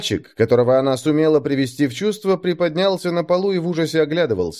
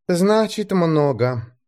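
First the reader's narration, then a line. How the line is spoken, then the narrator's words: Sighing. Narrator (Russian): вздохнула она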